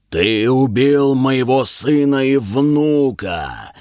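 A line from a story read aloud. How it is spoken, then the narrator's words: Monstrous roar. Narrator (Russian): взревел великий змей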